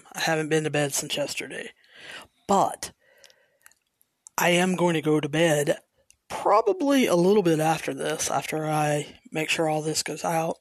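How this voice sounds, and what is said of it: Tired, sleep-deprived voice. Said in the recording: “If I sound tired, I am.”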